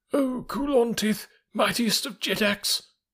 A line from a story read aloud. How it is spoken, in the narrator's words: cried, after the fashion of the court